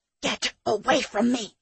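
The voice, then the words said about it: Harsh whisper. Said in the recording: “A harshly whispered voice said, ... The whispering voice grew louder.”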